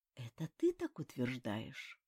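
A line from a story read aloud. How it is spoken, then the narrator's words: Quiet angry curse. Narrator (Russian): Кагеру тихо, злобно выругался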